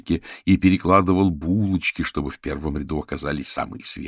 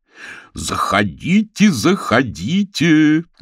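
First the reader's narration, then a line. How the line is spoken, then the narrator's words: Loud shout. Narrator (Russian): громко закричал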